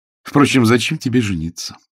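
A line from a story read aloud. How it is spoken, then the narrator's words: Continued sarcastically. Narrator (Russian): язвительно продолжала Лисицкая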